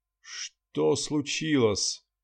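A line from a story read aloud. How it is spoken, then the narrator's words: Hoarse sleepy exhale. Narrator (Russian): выдохнул хриплым с просонья голосом журналист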